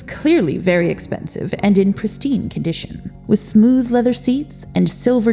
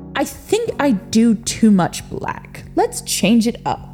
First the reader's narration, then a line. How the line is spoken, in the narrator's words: he said, gleefully